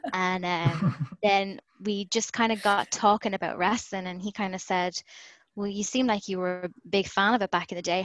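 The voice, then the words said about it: Irish accent. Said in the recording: “when he heard my accent ... I'm from Galway ... an actual Galway girl”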